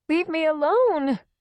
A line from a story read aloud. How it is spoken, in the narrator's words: her voice breaking